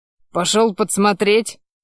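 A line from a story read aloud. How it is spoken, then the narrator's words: Snorting. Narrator (Russian): хмыкнул я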